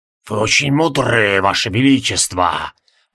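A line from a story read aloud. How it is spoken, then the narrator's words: Wheezing ghost. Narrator (Russian): просипел Тевилдорм-призрак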